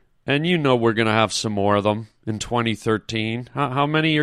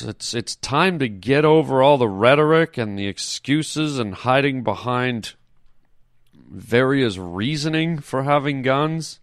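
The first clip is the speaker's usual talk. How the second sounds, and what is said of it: Somber, serious tone. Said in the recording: “in my somber voice”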